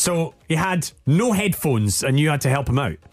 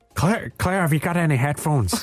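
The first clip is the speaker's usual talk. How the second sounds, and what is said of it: Fairly good put-on Irish accent. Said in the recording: “Do you want to do it in an Irish accent? ... That wasn't bad, actually. I'm impressed.”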